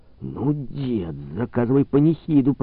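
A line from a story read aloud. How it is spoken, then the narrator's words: Young man hissing. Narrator (Russian): прошипел юнец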